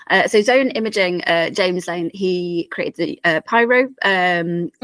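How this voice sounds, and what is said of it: Hoarse, croaky voice. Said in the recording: “I have a frog in my throat ... I just have to go away and cough again”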